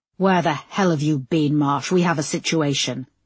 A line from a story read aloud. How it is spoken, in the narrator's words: snapped Oakley